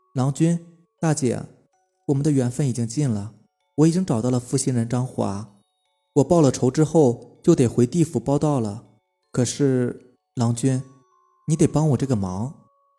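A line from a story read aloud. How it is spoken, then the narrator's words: Sighing. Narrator (Chinese): 白牡丹 叹了一口气，然后对张秀才两口子说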